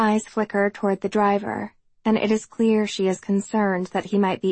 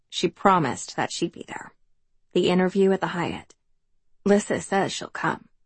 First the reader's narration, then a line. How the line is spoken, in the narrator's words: Libby speaks so quietly that I almost don't hear her when she says